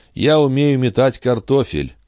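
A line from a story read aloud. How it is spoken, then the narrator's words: Glum flat tone. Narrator (Russian): уныло сообщил он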